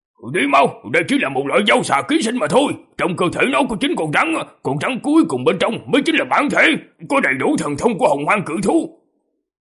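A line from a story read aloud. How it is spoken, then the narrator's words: Decisive shout. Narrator (Vietnamese): không chút do dự mà gã quát lên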